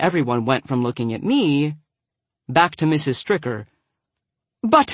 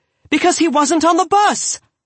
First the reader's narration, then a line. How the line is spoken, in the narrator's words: Donatello said loudly